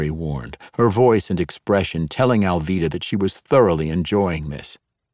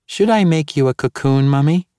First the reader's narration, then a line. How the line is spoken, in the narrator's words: Sharon sweetly and innocently asked